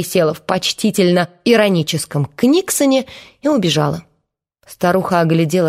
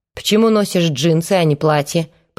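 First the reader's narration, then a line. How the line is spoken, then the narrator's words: Grumbled. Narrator (Russian): проворчала она наконец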